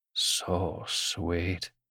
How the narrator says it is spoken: murmured

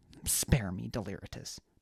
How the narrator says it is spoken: Baz snapped

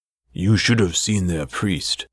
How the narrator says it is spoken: he said

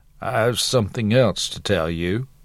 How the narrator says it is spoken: silently muttered

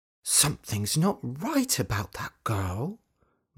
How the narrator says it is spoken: muttered Dorothy

